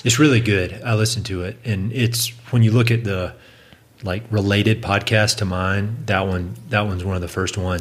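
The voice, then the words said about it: Southern US accent. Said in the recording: “my weird Southern accent ... I love your weird Southern accent.”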